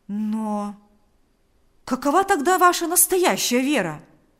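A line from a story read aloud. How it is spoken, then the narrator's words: Exclaiming. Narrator (Russian): воскликнул Павел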